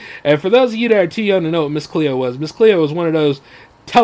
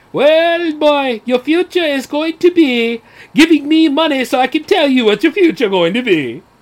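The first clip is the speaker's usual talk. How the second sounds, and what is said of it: Poor impression of Miss Cleo. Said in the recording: “that's a terrible accent, by the way, but yeah, that's what she sounded like”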